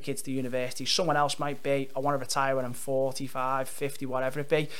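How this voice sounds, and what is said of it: Fast speech, Scouse accent. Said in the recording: “I have quite a strong Scouse accent, and this is kind of my posh... It's the tempo, mate. It's difficult to keep up... this is actually the posh voice”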